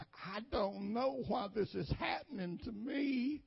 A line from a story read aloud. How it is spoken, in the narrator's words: moan and cry saying